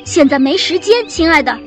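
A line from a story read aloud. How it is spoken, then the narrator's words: Loud shout. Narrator (Chinese): 熊妈妈大喊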